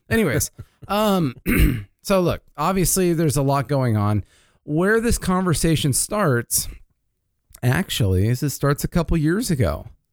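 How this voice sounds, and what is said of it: Slightly raspy throat. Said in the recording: “I'm getting a little raspy in my throat.”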